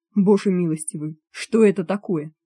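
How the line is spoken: Plain. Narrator (Russian): спросил зав

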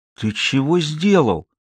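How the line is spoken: Hoarse. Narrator (Russian): хрипло проговорил

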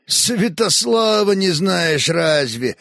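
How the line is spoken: Snorting. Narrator (Russian): хмыкнул Хорь

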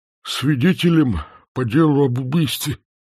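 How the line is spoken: Toothless mumble. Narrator (Russian): прошамкал Усов

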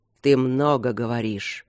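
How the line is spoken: Growl. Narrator (Russian): прорычал Демьян

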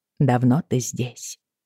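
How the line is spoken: Plain. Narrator (Russian): спросила

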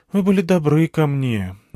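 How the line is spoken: Sighed. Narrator (Russian): вздохнула Алиана

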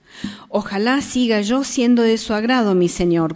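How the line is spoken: Plain. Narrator (Spanish): contestó ella

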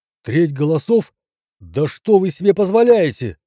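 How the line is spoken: Indignant outcry. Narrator (Russian): выкрикнул доктор

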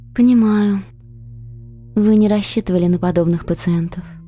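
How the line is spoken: Sad, smiling. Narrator (Russian): Грустно улыбаясь, ответила Николь

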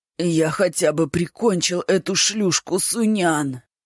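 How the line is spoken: Hoarse rasp. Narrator (Russian): прохрипел Акван

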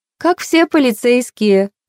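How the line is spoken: Laughing. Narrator (Russian): рассмеялась Меган

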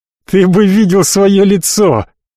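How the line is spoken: Sudden laughter. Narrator (Russian): внезапно рассмеялся

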